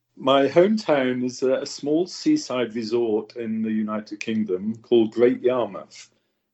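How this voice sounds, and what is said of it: Unusual, funny-sounding accent. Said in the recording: “you do have a kind of a weird, funny accent”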